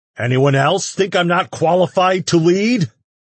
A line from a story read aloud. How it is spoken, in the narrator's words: He snarled